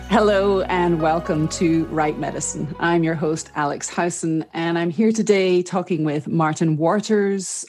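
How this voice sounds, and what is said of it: British accent. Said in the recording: “like me, Martin talks British.”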